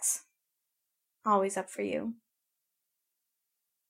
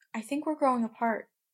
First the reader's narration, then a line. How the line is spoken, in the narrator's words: she says calmly